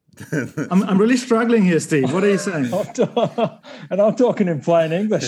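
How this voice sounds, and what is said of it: Broad Australian accent. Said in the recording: “my broad Australian accent ... the Australian Australian twang”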